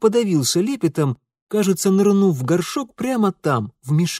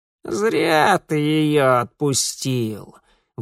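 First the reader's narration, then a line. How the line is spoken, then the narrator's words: Creaky rasping voice. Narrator (Russian): проскрипела она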